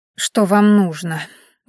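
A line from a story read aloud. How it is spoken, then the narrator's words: Weary question. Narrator (Russian): устало спросила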